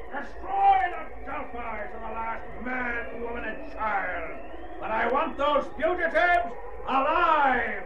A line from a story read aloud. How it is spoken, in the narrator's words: Urko, flushed with a sense of victory, shouts to his officers